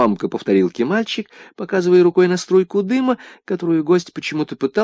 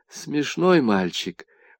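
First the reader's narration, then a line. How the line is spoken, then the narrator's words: Gloomy. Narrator (Russian): уныло заметил гость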